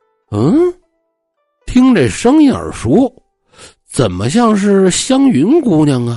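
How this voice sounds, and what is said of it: Usual voice. Nothing is said of it.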